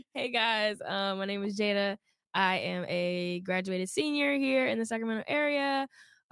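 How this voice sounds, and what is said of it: Hoarse, partly lost voice. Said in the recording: “my voice is a little gone. ... My voice is a little gone.”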